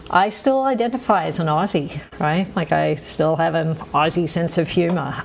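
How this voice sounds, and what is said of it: Mixed Australian accent. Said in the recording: “I've been out of Australia for long enough to pick up a funny accent, as you can all tell.”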